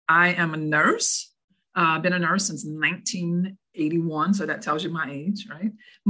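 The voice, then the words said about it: Deep Southern New Orleans accent. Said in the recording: “So this accent you hear is not from up north... I'm from as deep South as it gets, New Orleans.”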